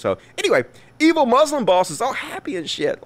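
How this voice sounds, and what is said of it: Usual voice. Nothing is said of it.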